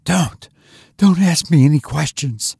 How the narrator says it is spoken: she said breathlessly

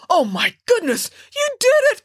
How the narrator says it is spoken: cried the captain

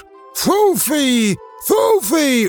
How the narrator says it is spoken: with a convulsive effort, screaming out

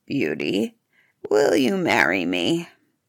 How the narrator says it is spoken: the beast asked her in his terrible voice

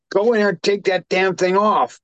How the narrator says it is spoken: husband yelling at her and saying

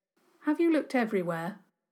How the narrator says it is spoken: Douglas said, in an even voice

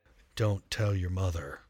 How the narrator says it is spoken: he whispered

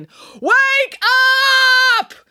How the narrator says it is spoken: yelling

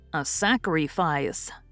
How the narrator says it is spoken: answered Demi solemnly

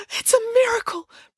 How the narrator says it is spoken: breathed Matilda

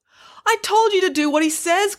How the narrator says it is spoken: cried the manager

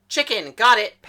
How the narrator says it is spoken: Paris yelled

